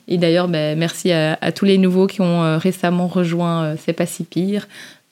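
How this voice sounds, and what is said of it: Belgian French accent. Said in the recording (French): “beaucoup de Belges parler avec nos petits accents et nos petites expressions ... mon petit accent ... nos petits accents belges”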